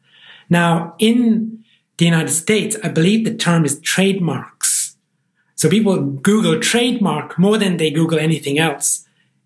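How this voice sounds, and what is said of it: Irish accent. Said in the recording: “As you can tell from my accent, I'm from the Irish Republic, from Ireland”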